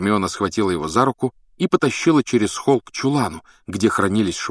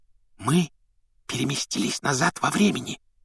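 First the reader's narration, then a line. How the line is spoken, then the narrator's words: Whispered explanation. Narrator (Russian): шепотом объяснила Гермиона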